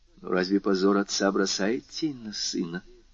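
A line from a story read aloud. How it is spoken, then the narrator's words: Timid remark. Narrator (Russian): робко заметила Валентина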